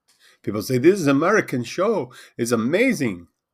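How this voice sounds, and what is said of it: Put-on Indian subcontinent accent. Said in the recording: “that was me trying to do a subcontinent accent.”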